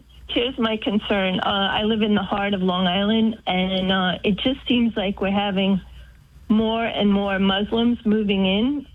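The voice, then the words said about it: Noticeable regional accent. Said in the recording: “I hear your accent already.”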